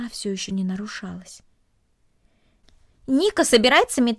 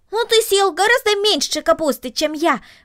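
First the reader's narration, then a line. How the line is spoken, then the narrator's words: Exclaimed. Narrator (Russian): воскликнул Макс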